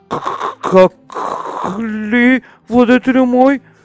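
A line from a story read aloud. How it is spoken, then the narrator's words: Stammering in fear. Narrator (Bulgarian): запелтечил от страх бунтарят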